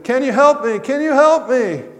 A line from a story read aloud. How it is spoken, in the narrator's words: cried